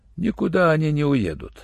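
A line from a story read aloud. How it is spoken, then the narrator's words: Calm. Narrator (Russian): спокойно сказал врач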